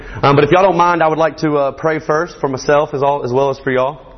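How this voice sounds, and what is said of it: Speaker's own regional accent. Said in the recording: “bear with me on my accent. I hear I got one up here”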